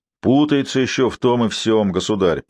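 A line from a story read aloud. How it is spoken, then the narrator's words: Deep bass voice. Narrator (Russian): пробасил одноглазый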